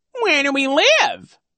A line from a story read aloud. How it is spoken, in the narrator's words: He said in his high, mocking tone